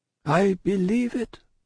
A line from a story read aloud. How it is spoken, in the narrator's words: answered her father mournfully